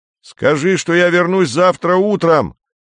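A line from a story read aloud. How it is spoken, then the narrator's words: Shout from behind. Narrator (Russian): крикнул кто-то за спиной Кондратьева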